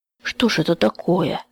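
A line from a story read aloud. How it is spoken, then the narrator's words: Trembling voice. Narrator (Russian): спросил Петр Кузьмич дрожащим голосом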